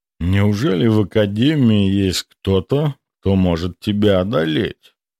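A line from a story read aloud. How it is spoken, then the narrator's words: Lazy but razor-sharp. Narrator (Russian): Вопрос прозвучал почти лениво, но каждый слог был заточен, словно лезвие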